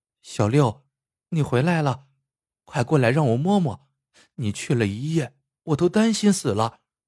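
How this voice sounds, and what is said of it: Young girl's voice. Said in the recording (Chinese): “只听一个少女的声音说道”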